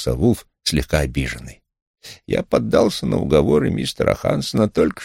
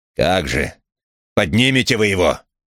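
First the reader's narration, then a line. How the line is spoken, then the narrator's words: Gruff bark. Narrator (Russian): рявкнул Крэмер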